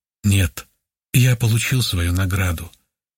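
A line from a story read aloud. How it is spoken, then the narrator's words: Calm, thoughtful. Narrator (Russian): спокойно и несколько задумчиво ответил он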